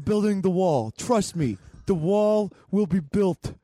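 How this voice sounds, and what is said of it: Attempted Donald Trump impression. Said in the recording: “a comic who can do a Trump impression”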